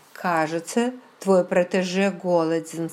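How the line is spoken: Plain. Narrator (Russian): сказала я

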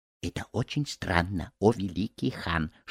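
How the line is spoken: Whispered. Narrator (Russian): шепнул Рахат-Лукум

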